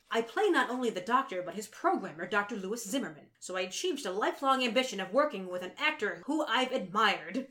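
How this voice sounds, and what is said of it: Impression of Robert Picardo. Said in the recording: “Let me do my best Picardo ... that was a pretty good Picardo.”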